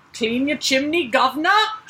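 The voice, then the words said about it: Deliberately bad put-on accent. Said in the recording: “That's my terrible accent.”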